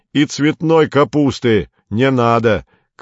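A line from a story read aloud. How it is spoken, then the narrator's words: Shouted after someone. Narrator (Russian): крикнул Горбовский вслед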